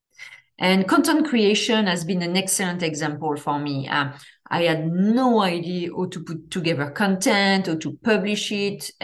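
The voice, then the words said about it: Strong French accent. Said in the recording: “I have a huge French accent.”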